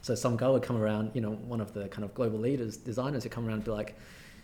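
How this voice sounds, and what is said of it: Fairly Australian accent. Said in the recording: “speaking my fairly Australian accent”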